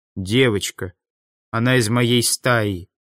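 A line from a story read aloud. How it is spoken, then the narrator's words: Grim. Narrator (Russian): мрачно ответил Мартин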